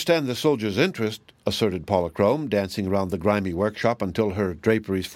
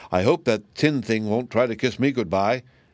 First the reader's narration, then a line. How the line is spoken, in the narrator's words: exclaimed the Tin Woodman's former head